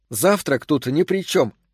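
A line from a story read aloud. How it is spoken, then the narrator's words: Indignant. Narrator (Russian): возмущенно заявила она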